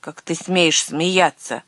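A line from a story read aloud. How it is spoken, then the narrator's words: Angry reply. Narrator (Russian): Незнакомец зло ответил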